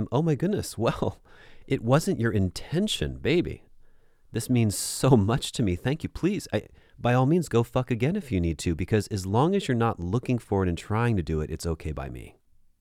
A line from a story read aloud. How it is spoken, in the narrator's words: exclaim